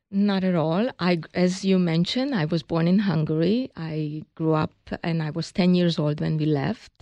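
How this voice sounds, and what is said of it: Hungarian accent. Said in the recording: “we all hear the accent. That's a Hungarian accent.”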